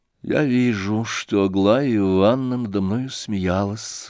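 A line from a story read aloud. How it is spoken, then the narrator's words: Sad. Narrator (Russian): грустно ответил князь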